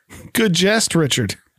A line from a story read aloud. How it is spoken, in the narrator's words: Derek awkwardly chuckles again and says